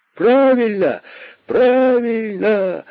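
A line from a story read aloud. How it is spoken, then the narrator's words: Rabbits shouting together. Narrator (Russian): закричали кролики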